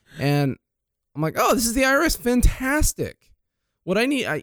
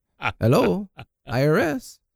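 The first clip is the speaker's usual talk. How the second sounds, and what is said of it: Heavy foreign accent, woman imitated. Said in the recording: “Some lady with a very heavy accent.”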